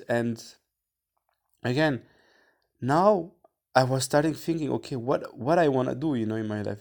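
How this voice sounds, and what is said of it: Non-native English accent. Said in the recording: “with my accent. If it's clear or not, my pronunciation”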